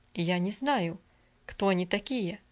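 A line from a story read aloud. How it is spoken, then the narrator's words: Plain. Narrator (Russian): ответил мистер Дирик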